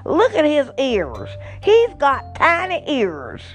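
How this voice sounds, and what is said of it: Southern US accent. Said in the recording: “she said in her southern accent”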